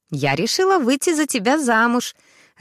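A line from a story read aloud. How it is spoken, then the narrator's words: Blurted joyfully. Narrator (Russian): радостно выпалила Ксюша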